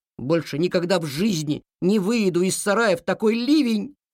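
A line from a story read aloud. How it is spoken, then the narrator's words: Small tractor squealing. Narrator (Russian): завизжал в ответ маленький трактор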